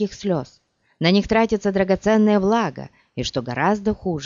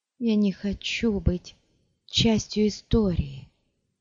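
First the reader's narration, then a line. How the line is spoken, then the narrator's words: Whispered. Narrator (Russian): шептала она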